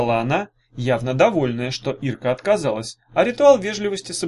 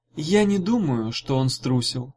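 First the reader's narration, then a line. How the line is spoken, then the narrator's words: Soft. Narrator (Russian): мягко сказала Гелата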